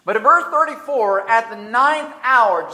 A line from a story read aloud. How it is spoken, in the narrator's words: Jesus cried out with a loud voice